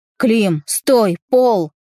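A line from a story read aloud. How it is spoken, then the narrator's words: Shouted. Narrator (Russian): закричал он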